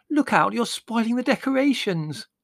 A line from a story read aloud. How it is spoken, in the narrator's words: wailed Margot